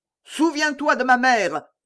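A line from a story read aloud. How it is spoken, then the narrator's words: Yelled. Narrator (French): hurla Mordaunt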